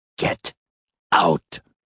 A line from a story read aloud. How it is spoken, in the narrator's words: in a strangled whisper